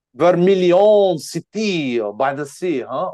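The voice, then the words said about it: Put-on French accent. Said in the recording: “I don't know why I'm speaking in French accent.”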